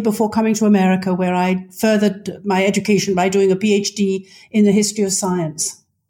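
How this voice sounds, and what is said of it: British accent. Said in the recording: “you can tell from my voice that I am British in origin. I grew up in Britain, actually Scotland and then London”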